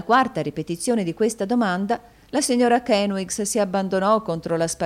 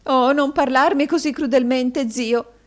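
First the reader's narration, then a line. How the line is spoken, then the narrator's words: Sobbing woman. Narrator (Italian): singhiozzò la signora Kenwigs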